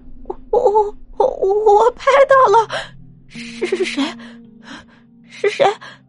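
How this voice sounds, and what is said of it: Trembling, frightened voice. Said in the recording (Chinese): “颤抖的声音说”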